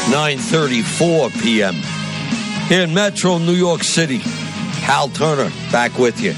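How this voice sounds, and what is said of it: New York / New Jersey accent. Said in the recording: “my accent creeped in. Did you hear that? New York ... the Jersey comes out of me, the New York City comes out of me”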